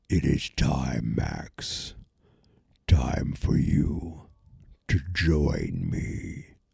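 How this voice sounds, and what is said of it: Imitated Vecna villain voice. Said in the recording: “Just tried doing a little voice.”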